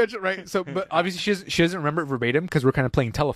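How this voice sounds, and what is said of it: Usual voice. Nothing is said of it.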